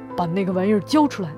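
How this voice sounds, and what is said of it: Rough, coarse gruff voice. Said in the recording (Chinese): “有个粗野的声音说”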